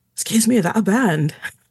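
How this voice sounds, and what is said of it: Bad put-on Scottish accent. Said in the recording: “sorry about my bad Scottish accent.”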